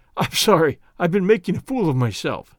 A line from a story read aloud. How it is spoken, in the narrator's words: he gasped